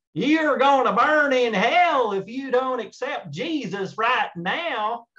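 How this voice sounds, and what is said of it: Hellfire-and-damnation preacher voice. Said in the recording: “I love the accent. ... pretty spot on there, right?”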